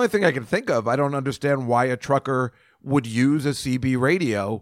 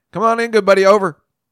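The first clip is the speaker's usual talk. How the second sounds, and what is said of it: Put-on Southern US accent. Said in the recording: “I don't think you can talk on a CB radio without a Southern accent.”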